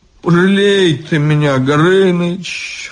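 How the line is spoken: Pleading. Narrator (Russian): взмолился Иван

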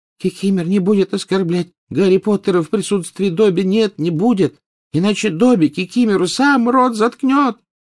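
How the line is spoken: High thin exclamation. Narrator (Russian): тонким голоском воскликнул Добби

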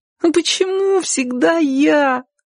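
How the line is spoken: Whining, whimpering. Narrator (Russian): захныкала Сонька

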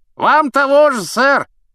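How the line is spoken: Knight shouting. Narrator (Russian): крикнул рыцарь

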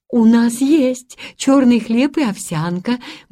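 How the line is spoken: Cheerful reply. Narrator (Russian): бодро ответила тетушка Бринкер

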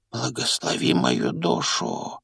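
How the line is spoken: Old man whispering. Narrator (Russian): прошептал старый бармен

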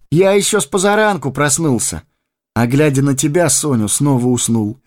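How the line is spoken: Cheerful. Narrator (Russian): весело проговорил он

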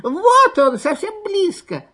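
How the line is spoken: Squeaking fox cubs. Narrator (Russian): запищали лисята

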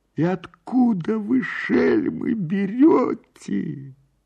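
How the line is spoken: Surprised cry. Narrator (Russian): казначей от удивления вскрикнул

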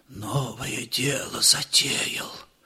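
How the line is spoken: Fearful whisper. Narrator (Russian): Матушка боязливо зашептала

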